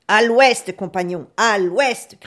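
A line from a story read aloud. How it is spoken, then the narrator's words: Viking's shout. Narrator (French): cria le viking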